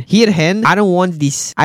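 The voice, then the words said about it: Put-on Scottish accent. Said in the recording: “in a Scottish accent, how do you guys do a Scottish accent?”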